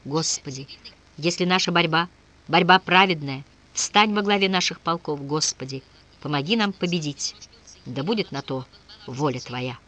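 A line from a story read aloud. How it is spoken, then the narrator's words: Fervent whisper. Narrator (Russian): Азарев горячо шептал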